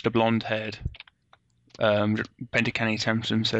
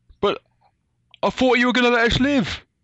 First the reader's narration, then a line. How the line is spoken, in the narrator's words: One of the more braver men shouts out